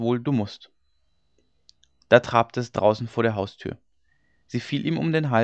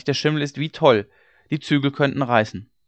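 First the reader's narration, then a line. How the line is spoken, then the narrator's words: Servant calling out. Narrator (German): rief der Knecht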